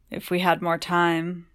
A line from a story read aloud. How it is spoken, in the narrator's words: Childermas sighed, lips brushing Segundus's